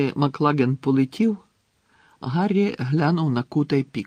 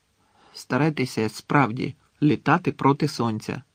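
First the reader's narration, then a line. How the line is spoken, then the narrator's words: Reluctant grumble. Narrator (Ukrainian): неохоче буркнув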